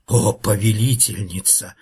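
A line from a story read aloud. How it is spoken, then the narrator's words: Timid hiss. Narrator (Russian): робко прошипела старшая гадюка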